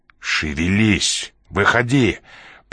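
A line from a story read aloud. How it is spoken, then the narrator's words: Growled. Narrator (Russian): прорычал Ян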